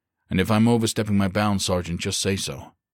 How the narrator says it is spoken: Bretz said firmly

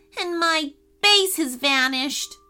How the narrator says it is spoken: moaned Ashton

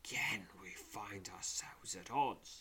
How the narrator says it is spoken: she says, her voice low and menacing

